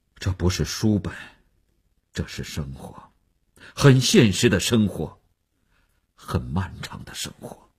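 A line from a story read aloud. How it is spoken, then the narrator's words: Sighing. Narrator (Chinese): 叹息着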